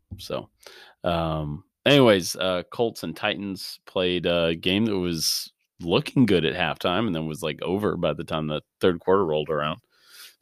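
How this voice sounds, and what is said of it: Sick, altered voice. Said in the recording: “I've been sick all week, so that's why I sound like this. ... it's better radio voice”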